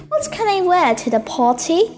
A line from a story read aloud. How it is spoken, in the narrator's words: asked Daisy